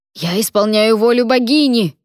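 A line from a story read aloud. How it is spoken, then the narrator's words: Yelling. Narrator (Russian): заорал Клавер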